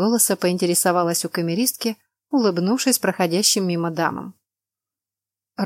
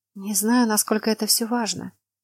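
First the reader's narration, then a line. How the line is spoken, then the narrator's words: Quiet reply. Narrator (Russian): так же тихо ответила девушка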